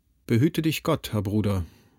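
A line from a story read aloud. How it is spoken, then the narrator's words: Very gentle, almost wistful. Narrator (German): sagte Siegmund sehr sanft, beinahe wehmütig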